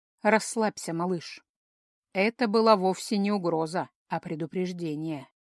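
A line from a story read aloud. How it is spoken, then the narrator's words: Quiet, sad, weary. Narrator (Russian): тихо произнес советник, как-то сразу становясь старше и печальнее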